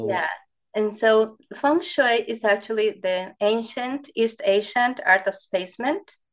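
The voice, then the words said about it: Speaker's own accent. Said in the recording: “It probably is my accent.”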